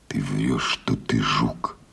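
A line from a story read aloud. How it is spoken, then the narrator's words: Fascinated close whisper. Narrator (Russian): произнес шепотом в самое лицо жука, с увлечением рассматривая его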